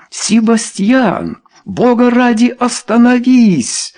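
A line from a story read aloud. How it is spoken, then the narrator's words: Pleading. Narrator (Russian): взмолился Чарльз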